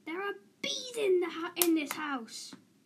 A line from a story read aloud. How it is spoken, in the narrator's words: his mother screamed